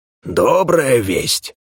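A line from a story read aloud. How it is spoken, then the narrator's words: Exclaimed. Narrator (Russian): воскликнул Ур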